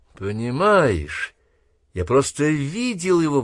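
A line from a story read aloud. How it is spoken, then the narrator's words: Boy exclaiming. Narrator (Russian): воскликнул сын Стива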